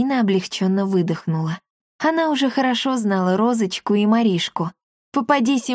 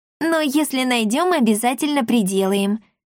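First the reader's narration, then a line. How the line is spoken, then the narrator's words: Promising. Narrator (Russian): пообещала Розочка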